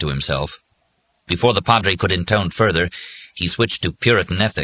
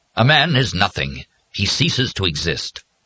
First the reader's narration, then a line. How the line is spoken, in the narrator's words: the Padre said in a somewhat more forceful voice